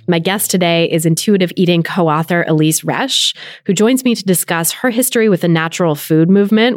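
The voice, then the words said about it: Slightly scratchy voice. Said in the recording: “I'm a little under the weather today, so my voice might be a little scratchy”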